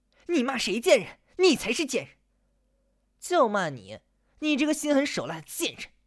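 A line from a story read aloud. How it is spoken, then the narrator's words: Angry. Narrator (Chinese): 岳晓东愤怒地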